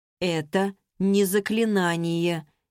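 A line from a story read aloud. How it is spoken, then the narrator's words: Uncertain objection. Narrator (Russian): неуверенно возразил Борн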